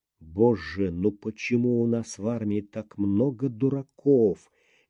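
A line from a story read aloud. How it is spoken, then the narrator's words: Barely audible sigh. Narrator (Russian): еле слышно вздохнул подполковник Сиротин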